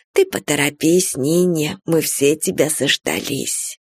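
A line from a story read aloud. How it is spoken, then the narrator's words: Soft kind mother's voice. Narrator (Russian): мама сказала своим тихим, добрым голосом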